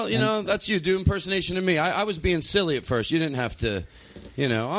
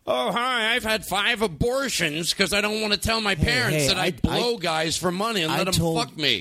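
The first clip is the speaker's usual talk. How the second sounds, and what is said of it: Imitates another person's voice. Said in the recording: “do an impersonation of your sister”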